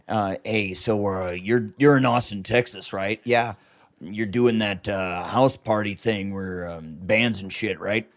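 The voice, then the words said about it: Imitates another person's voice. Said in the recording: “I do a great impression of my dad.”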